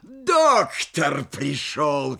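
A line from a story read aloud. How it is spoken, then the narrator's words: Shout, then laughter. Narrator (Russian): крикнул он и захохотал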